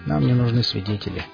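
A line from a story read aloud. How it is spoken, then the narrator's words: Quiet, robot speaker. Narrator (Russian): тихо произнес бот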